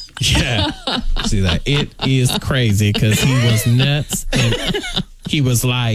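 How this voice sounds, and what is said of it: Usual voice. Nothing is said of it.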